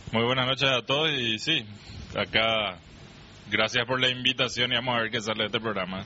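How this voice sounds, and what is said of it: Deep announcer-style radio voice. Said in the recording (Spanish): “el único que tiene voz de locutor”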